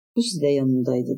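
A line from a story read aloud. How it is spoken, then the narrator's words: Plain. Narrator (Turkish): dedi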